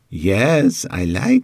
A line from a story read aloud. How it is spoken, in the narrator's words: she giggled